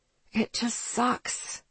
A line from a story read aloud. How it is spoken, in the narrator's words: I muttered